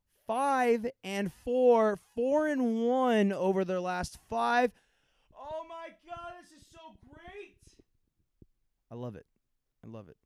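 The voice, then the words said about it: Excited yelling. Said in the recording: “I'm yelling”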